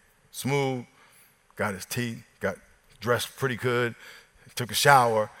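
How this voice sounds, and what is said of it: Usual voice. Nothing is said of it.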